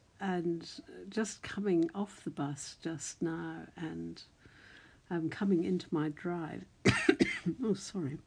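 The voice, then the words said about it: Croaky, dry-throated voice. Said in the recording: “I've got a frog in my throat. ... I think I've got a very dry throat”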